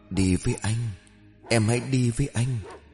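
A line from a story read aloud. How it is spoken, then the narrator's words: Soft reply. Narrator (Vietnamese): Tiếng của Huy khẽ đáp lại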